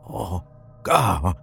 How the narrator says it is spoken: Sean croaked

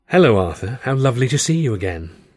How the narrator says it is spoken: Wren said, with her voice like warm velvet

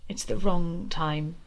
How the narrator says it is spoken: she sighed

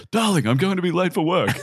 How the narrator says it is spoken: exclaim

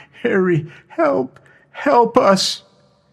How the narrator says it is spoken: Claire whimpering

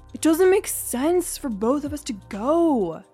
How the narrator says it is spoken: he moaned

